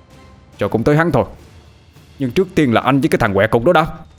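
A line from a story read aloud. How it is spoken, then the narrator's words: Snapped back. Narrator (Vietnamese): Tôi gắt lại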